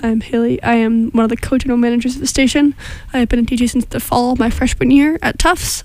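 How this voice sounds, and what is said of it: Voice sounds a little funny, sick. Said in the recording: “I'm sick, so my voice sounds a little funny”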